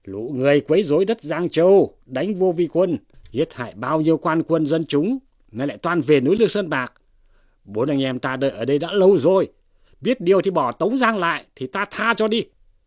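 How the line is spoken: Group shouting. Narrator (Vietnamese): 4 vị hở hán quát lên rằng

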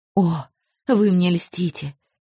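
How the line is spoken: Forced out. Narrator (Russian): Все-таки выдавил он

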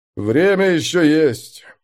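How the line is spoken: Gloomy. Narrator (Russian): мрачно произнес мастер воздуха

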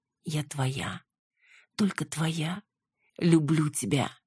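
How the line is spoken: Quiet. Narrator (Russian): звучало тихо

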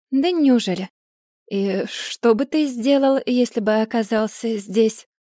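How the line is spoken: Purring over the phone. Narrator (Russian): Я промурлыкала в трубку и спросила

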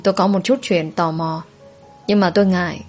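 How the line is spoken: Quiet voice. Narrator (Vietnamese): Tôi nhỏ giọng

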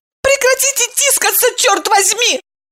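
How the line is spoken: Shrieking. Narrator (Russian): взвизгнула Евдокия

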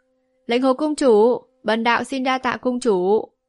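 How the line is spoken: Laughing loudly. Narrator (Vietnamese): Vô Ưu thượng nhân cười to nói

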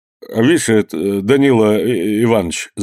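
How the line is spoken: Stammering blacksmith. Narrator (Russian): заговорил, запинаясь кузнец

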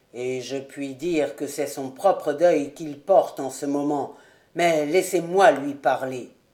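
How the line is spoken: Colonel speaking low. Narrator (French): dit à voix basse le colonel

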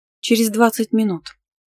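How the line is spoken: Calm reply. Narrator (Russian): спокойно ответила

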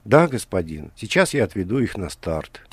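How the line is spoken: Quiet reply, young man. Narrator (Russian): тихо ответил юноша лет 20

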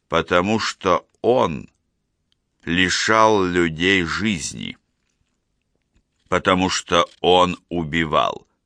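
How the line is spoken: Slow and distinct. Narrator (Russian): медленно и отчетливо проговорил

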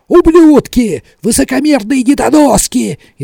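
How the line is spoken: Frantic screaming. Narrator (Russian): истошно орал он

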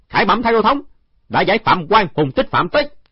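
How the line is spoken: Loud formal announcement. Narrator (Vietnamese): Trương Khang Niên lớn tiếng nói

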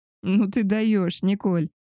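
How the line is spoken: Laughing. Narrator (Russian): рассмеялась Мария

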